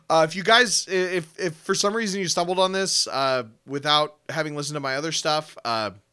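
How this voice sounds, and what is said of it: Hoarse, tired voice. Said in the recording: “my voice is getting hoarse.”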